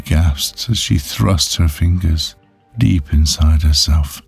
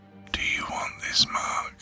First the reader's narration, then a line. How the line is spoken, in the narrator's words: Leaning in closely, whispered